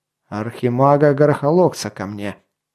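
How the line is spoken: Through gritted teeth. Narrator (Russian): выговорил сквозь зубы Ганилон

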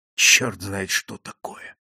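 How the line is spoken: Whisper. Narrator (Russian): прошептал я

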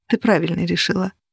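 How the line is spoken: Whisper. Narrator (Russian): Аннет шепнула

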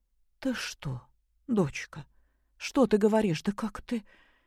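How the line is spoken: Frightened babbling. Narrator (Russian): Испуганно залепетала Любовь Сергеевна

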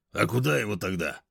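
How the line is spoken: Deep male voice. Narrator (Russian): пробасил мужской

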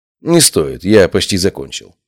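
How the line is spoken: Calm. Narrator (Russian): спокойно ответил я

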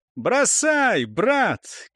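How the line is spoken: Cheerful shout. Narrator (Russian): крикнул весело Бальдр

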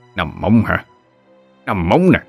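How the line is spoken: Old man muttering. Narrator (Vietnamese): lão vừa lẩm bẩm

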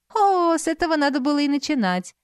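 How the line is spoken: Kind laughter. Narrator (Russian): по-доброму рассмеялась Аленушка

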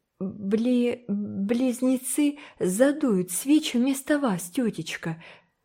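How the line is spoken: Hesitant, worried speech. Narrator (Russian): неуверенно и обеспокоенно выговорила Энн

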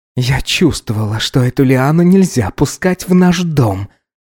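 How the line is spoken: Angry, through gritted teeth. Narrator (Russian): зло процедила Эсмира

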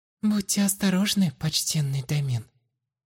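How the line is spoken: Cooing woman. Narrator (Russian): проворковала хозяйка будуара

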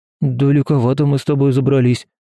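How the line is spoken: Wary babbling murmur. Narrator (Russian): пролепетал Степка, настороженно прислушиваясь к каждому шороху

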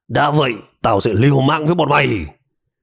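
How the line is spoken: Resentful raised-voice shout. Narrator (Vietnamese): Tên đồ tím vẫn uất trong lòng, cao giọng quát

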